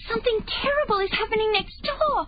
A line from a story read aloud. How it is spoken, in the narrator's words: she shrieked